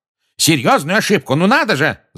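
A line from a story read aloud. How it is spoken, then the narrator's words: Yelling. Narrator (Russian): заорал Фадж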